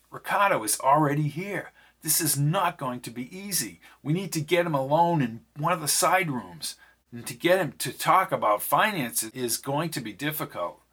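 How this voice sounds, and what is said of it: Low, quiet voice. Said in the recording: “Peter spoke in a low voice.”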